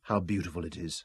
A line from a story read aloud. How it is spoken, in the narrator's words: Robin murmured